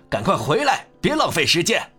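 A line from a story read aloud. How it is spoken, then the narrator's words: Father roaring. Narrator (Chinese): 父亲吼道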